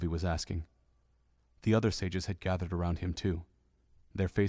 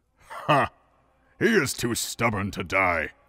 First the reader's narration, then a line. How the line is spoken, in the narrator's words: Darunia boomed, his voice strong and confident despite his injuries